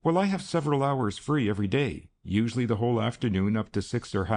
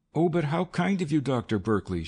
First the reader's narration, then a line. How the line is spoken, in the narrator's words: exclaimed